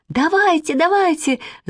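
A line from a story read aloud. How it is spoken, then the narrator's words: Shouting. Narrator (Russian): закричала Манечка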